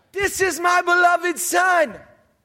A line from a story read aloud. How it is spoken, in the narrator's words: the very voice of God, the voice of the Father, booms and shouts out